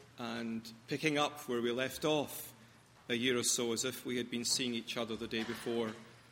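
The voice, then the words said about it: Glasgow Scottish accent. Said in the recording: “an accent that isn't quite from here ... my mellifluous, educated Glasgow accent”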